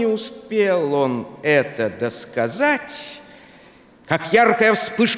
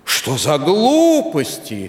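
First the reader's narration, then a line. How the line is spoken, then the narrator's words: Exclamation. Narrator (Russian): воскликнул Вашингтон Отис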